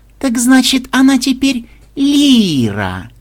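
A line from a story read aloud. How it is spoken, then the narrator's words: Girl drawling with open laughter. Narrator (Russian): протянула девушка, рассмеявшись уже открыто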